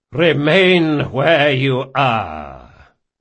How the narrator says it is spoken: boomed a voice with an air of assured command

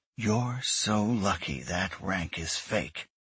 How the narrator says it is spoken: she growled under her breath

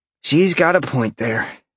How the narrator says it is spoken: Sean said with a heavy sigh

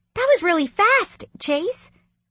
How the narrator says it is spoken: Lily said excitedly

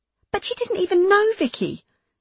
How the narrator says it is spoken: exclaimed Beth

